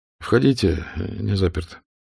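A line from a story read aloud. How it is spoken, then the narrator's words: Quiet. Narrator (Russian): Штирлиц негромко сказал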